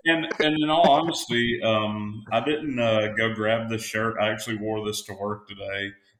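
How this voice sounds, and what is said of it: North Alabama Southern US accent. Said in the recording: “I'm from North Alabama ... there's an accent difference between us ... backwoods hillbilly”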